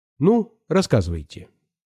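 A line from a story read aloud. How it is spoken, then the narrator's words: Stern woman's voice. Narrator (Russian): строго сказала мне Искрина Романовна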